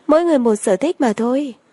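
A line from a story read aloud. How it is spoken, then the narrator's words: Smiling. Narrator (Vietnamese): Lâm Triều Anh mỉm cười nói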